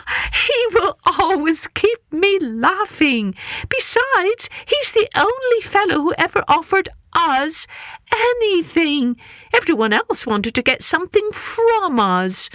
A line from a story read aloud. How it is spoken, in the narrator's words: she said, gasping for air from laughter